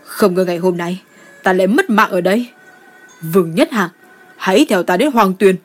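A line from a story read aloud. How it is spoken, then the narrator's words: Loud defiant laughter. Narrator (Vietnamese): Cao Duệ ngửa mặt lên trời cười lớn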